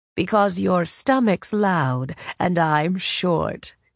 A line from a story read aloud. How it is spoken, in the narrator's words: she said, laughing